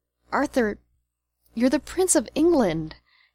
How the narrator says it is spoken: he moaned

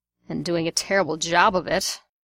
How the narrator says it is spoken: Sirius growled

